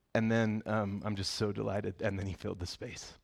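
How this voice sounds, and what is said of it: Emotional voice. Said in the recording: “I'm a little emotional”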